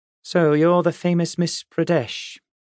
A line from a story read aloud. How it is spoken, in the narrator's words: said evenly